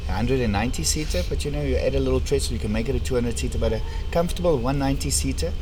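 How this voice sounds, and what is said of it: Strong Afrikaans accent. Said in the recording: “my strong Afrikaans accent”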